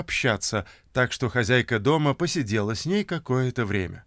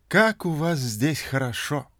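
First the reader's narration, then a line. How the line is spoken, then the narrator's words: Sighing. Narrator (Russian): вздохнула Фрэнки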